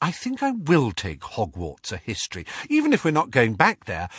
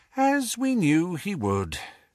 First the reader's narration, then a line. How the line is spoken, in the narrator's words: she sighed